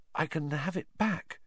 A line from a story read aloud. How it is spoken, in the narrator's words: Harry said weakly